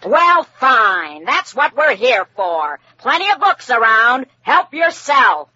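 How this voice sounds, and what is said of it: Shouting. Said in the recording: “Why are you shouting?”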